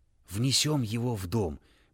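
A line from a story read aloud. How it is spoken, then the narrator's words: Whispered. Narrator (Russian): прошептал Джельсомина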